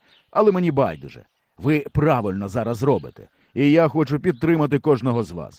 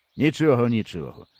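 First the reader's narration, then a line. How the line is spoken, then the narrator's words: Calm. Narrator (Ukrainian): спокійно сказав дядько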